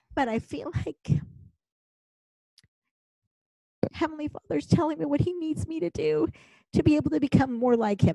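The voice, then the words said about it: Emotional, choked-up voice. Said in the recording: “I get a little bit emotional.”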